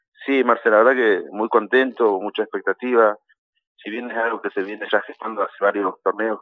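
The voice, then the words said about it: Hoarse, husky voice. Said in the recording (Spanish): “ando con la voz tomada”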